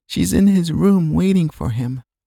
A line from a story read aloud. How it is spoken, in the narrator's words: she replied sleepily